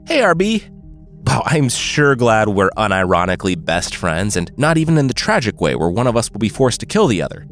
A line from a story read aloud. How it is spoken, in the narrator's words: Fox said